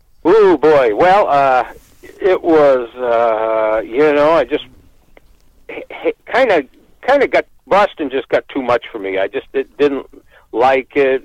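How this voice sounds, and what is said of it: Northeastern US accent. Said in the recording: “he was speaking with a Northeast accent. I said, that guy is definitely from somewhere in the Northeast.”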